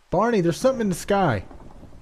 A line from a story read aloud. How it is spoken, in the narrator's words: yelled in